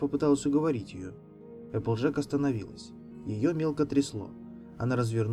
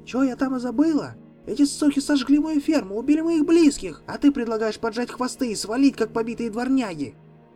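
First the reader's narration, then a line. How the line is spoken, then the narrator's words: Shouting, voice nearly breaking. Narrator (Russian): Она кричала, почти срывая голос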